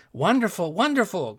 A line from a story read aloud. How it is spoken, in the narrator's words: cried everyone